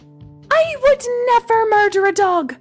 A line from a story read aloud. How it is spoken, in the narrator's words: Gemma cried